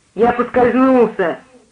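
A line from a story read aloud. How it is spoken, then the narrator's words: Irritated explanation. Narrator (Russian): объяснил Джордж раздраженно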